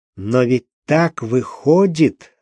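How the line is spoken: Slow, quiet, syllable by syllable. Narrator (Russian): сказал Крячко медленно, тихо и как-то по слогам, словно самому себе доказывая некий тезис

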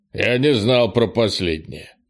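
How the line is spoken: Grumbling. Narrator (Russian): проворчал Крис

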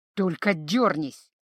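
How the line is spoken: Hiss. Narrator (Russian): прошипел эльф

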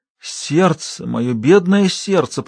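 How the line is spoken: Moaning. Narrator (Russian): простонала она

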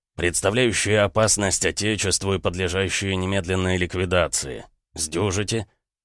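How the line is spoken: Wry snort. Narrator (Russian): хмыкнул Маннергейм

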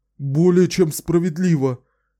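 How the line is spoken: Fawning babble. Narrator (Russian): заискивающе пролепетал Джон

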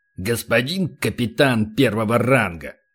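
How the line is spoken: Hiss. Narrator (Russian): прошипел полубой

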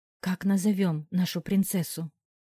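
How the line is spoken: Soft whisper. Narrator (Russian): тихо прошептала рядом Диана

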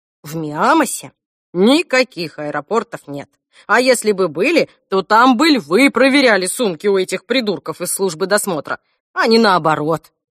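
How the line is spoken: Grandmother, offended. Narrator (Russian): обиженно говорила бабушка Эльсе

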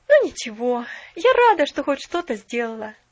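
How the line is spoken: Inward sigh. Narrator (Russian): вздохнула она про себя

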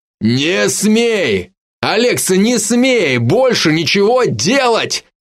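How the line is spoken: Yelled. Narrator (Russian): заорал Северский

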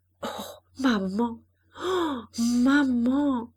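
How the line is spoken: Broken voice. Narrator (French): d'une voix brisée

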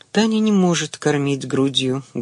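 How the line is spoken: Sad. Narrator (Russian): грустно сказала Ада

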